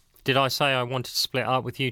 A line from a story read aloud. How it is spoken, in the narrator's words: Tracy asked